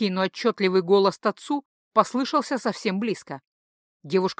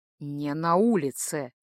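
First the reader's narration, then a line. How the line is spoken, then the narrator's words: Quiet interruption, man. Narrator (Russian): Все так же тихо оборвал мужчина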